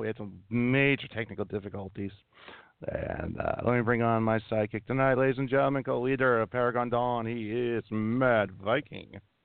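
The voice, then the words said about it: Unwell, rough-sounding voice. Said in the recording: “My voice sounds lousy ... I have been under the weather all week.”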